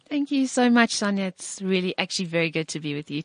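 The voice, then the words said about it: Strong British-sounding accent. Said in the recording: “such a strong British accent”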